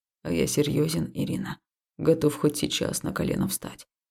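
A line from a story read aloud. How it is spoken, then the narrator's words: Quiet reply. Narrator (Russian): Тихо ответил он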